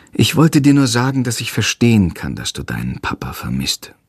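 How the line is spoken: Sighing. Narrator (German): sagt sie schließlich und seufzt

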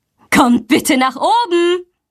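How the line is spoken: Calling out. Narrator (German): ruft sie

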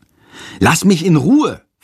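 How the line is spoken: Hissing. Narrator (German): faucht Jendrik

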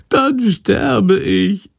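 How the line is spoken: Wailing. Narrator (German): jammert Schandor

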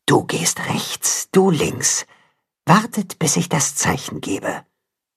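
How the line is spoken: Whispering. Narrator (German): Da hört er die Wolfsmutter flüstern

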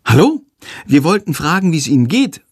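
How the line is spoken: Polite call. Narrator (German): ruft Lilli höflich

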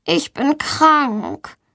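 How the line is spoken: Suffering voice. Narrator (German): sagt Valentina mit leidender Stimme

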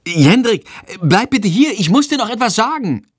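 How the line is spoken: Called out. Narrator (German): ruft sie

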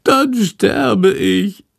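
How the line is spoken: Wail. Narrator (German): jammert Shandor

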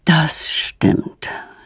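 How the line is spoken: Sighing father. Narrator (German): seufzt Petronellas Vater

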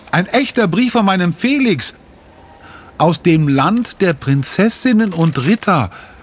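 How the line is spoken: Calling out. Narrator (German): ruft sie

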